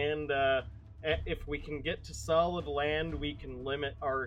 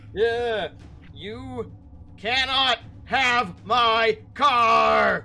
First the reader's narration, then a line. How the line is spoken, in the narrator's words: he yells in rage